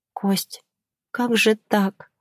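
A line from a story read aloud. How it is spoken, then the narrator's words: Hysterical whisper. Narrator (Russian): прошептала я, чувствуя, как меня накрывает очередная волна истерики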